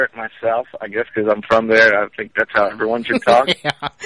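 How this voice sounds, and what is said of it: Kentucky accent. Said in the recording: “what is wrong with my accent here? Now, but, that's just growing up in Kentucky ... some people find that accent charming ... It's very charming.”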